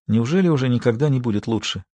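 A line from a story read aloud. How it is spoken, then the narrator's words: Quiet question. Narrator (Russian): тихо спросила Мартина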